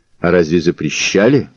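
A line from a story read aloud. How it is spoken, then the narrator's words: Snorting. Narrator (Russian): хмыкнул Мазур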